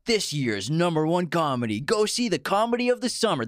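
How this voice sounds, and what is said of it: Movie trailer announcer voice. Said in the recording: “that was a pretty good trailer voice”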